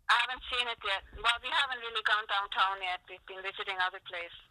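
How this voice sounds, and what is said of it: Blended Pakistani, Swiss, Canadian accent. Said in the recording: “She's got the cutest little French accent. ... She's got a Swiss accent. She's got a fucked up accent ... it's a blend of Pakistani and Swiss and Canadian. ... she sounds adorable ... She sounds tiny.”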